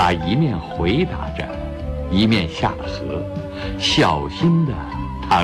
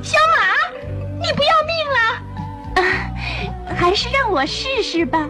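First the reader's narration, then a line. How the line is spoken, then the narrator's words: Shouting again. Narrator (Chinese): 松鼠又大叫起来了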